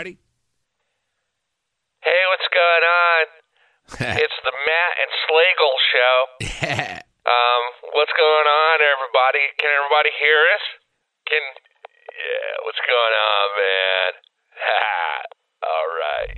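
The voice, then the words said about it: Parody of amateur internet talk-show host. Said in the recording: “Here's my impression of 95% of the internet talk shows that are out there today.”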